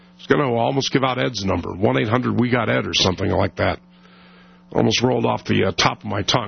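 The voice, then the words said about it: Ailing, strained voice. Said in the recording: “You believe with this voice ... my voice just kind of, you know, is just won't get better ... I'm afraid you're going to bust a vocal cord there”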